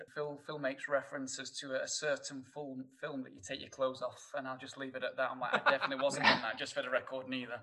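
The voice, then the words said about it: Thick Northern English accent. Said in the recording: “my thick northern accent ... coming from Sheffield”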